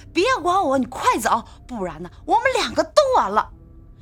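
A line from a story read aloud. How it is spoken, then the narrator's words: Loud shout. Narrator (Chinese): 她大声地喊道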